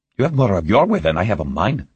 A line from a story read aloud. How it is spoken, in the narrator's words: Patel grumbled